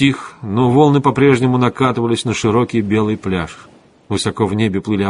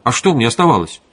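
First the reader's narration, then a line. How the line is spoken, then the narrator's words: Angry objection. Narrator (Russian): сердито возразил венерианин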